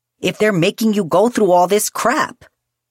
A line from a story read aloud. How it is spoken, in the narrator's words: Julian snapped